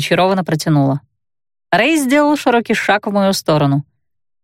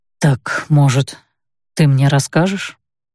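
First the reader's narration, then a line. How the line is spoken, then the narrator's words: Quiet mesmerizing voice. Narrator (Russian): спросил тихим, завораживающим голосом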